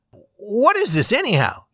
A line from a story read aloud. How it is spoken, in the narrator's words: he cried